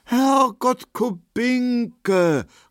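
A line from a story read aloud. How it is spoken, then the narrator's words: Astonished exclamation. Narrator (German): rief Markowski erstaunt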